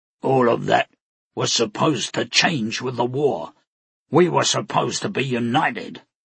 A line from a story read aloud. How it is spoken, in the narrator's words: another of the lieutenants growled